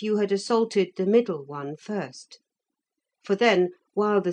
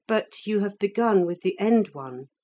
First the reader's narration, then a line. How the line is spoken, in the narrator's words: said Felix